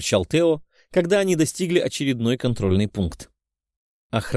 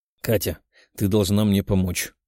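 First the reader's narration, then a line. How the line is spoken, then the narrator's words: Serious young man. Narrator (Russian): серьезным голосом сказал парень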